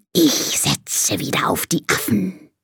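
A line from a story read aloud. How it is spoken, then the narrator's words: Snake's hiss. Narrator (German): zischt die Schlange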